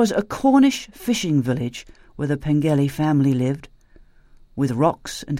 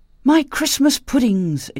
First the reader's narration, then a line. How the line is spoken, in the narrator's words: exclaimed Jean